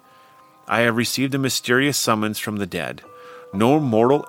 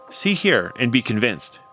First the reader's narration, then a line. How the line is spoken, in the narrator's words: he exclaimed eagerly